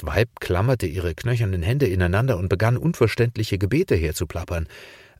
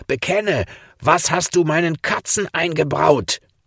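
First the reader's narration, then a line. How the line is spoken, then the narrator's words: Shouted. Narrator (German): schrie er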